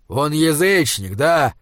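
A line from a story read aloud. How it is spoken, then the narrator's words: Growled. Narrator (Russian): зарычал Изгримнур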